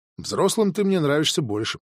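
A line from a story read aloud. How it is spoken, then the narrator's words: Plain. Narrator (Russian): сказала Милана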